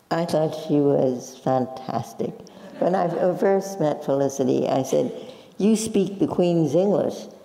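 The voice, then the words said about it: Slight Brooklyn accent. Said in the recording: “You have still a bit of a Brooklyn accent”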